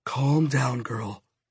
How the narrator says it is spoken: I whispered

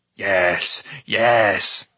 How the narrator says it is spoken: cried Gergi

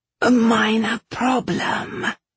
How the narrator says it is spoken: Silver hissed

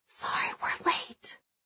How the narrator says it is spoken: whispers

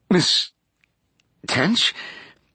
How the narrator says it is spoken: Gabrielle stammered, suddenly unable to breathe

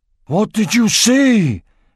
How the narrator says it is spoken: cried Oryk

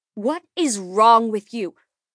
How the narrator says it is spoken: she said, her voice raised and echoing down the street

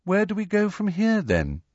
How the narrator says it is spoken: she asked, in a politely interested voice, as though this was all a rather interesting day trip

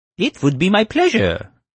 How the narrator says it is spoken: the computer squealed

